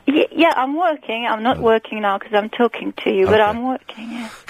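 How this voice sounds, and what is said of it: Belgian accent. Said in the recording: “your accent, your accent is from where? ... from Belgium. ... Because of your accent, it is impossible for an English person to guess or even hazard a rough guess at your age. Sometimes you sound like you're 15, sometimes you sound 70.”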